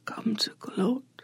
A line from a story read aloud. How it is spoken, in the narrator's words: Xochitl asks, or tries to, because it won't come out as more than a whisper